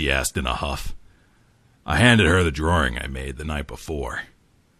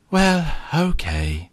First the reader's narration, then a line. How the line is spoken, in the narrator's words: she sighed